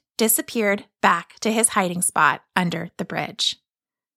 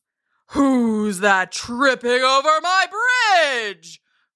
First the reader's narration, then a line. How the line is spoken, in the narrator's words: roared the troll